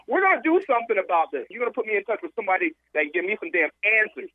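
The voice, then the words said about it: Upset, agitated voice. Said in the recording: “you sound upset.”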